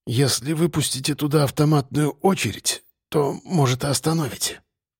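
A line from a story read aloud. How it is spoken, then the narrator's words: Quiet. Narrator (Russian): сказала она тихо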